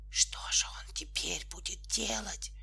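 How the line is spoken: Whisper. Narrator (Russian): послышался опять шепот

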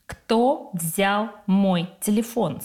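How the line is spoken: Stern question. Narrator (Russian): строго спрашивает Антон

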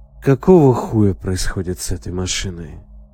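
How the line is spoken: Tired. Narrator (Russian): Устало произнес Егор

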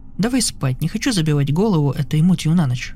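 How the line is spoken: Plain. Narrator (Russian): говорит

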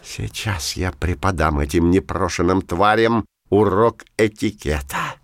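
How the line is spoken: Hissed. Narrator (Russian): прошипел Пушок

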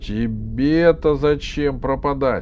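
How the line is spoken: Shout. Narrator (Russian): крикнул ей Иванушка

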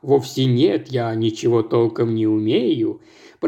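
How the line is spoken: Embarrassed mumble. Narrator (Russian): пробормотал смущенный похвалами хорошенькой женщины Реджиналда

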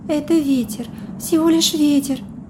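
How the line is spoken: Breathy exhale. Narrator (Russian): выдохнула

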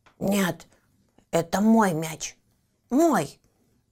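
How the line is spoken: Angry growl. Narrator (Russian): Харти сердито зарычал

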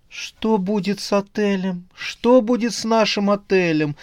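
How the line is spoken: Moaning. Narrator (Russian): стонала Оксана

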